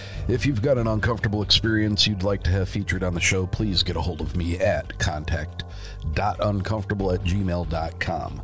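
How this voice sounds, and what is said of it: Strained, sick-sounding voice. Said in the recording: “My voice is still suffering from the effects of COVID”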